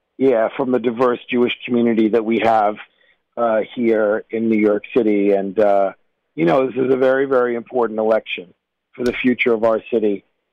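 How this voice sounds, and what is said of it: Hoarse, strained, fading voice. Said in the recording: “I'm losing my voice. You can probably hear it. I've been out campaigning.”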